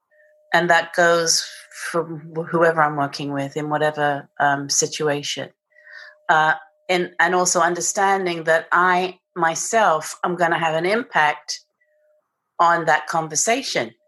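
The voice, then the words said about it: British accent. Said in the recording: “I have this British accent”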